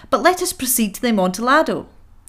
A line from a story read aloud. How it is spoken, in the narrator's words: exclaimed